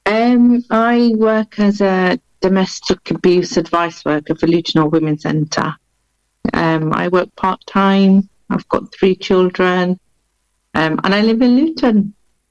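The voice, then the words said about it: Blended Yorkshire English accent. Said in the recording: “I'm a Yorkshire lass, so I'm originally from Bradford. ... the accent ... it's a blended accent, I think, now. So it's not quite Lutonian and it's not quite Yorkshire, but it's blended.”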